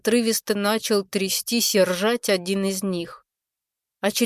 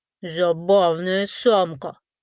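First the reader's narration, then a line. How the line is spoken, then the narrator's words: Grumbling. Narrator (Russian): пробурчал один из них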